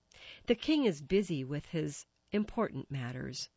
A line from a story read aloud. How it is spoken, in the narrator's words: said